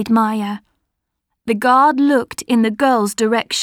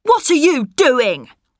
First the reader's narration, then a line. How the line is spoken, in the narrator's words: shouted